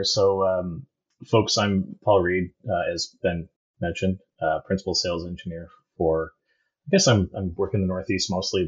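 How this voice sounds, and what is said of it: Canadian English accent. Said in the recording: “I am Canadian, if you haven't picked up yet by the accent ... I heard it in some of the aboots earlier.”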